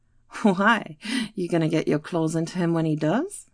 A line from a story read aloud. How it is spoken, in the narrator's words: Hannah laughed